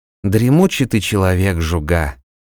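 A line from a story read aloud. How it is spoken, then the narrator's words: Sighing. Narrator (Russian): вздохнул Вильям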